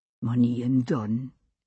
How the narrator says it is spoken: he said softly

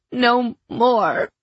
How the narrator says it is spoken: I pleaded hoarsely

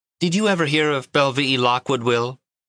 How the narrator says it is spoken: Laughing merrily, she asked

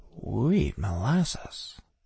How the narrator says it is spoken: I said faintly

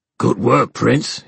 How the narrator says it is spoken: he growled

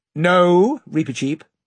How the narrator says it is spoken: said the King very firmly

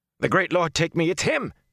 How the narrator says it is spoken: one of them cried

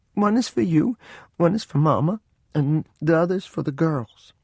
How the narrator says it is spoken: in a choking voice I said

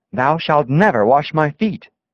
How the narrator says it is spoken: With great emphasis he exclaimed

